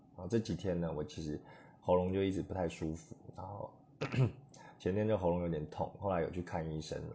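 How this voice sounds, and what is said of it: Low, quiet voice from a cold. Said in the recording (Chinese): “可能听众会觉得我的声音比较低沉，然后也比较小声一点。那是什么原因呢？哦，是因为我感冒了。”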